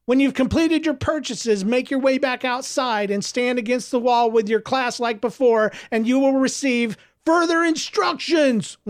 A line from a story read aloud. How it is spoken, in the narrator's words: one of the students called out from the crowd